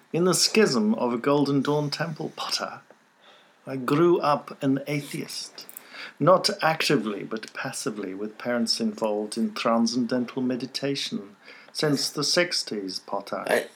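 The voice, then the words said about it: Professor Snape impression. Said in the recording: “I'm going to do it in a Professor Snape voice.”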